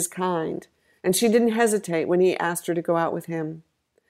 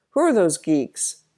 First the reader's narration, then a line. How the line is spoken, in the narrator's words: Donovan suddenly exclaimed